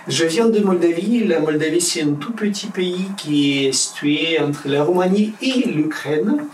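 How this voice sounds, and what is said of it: Foreign accent in French. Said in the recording (French): “il a un drôle d'accent ... Il n'y a pas que l'accent”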